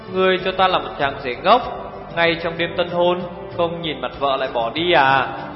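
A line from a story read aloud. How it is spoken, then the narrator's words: Laughing loudly. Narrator (Vietnamese): Hồ Thiết Hoa cười lớn hơn một chút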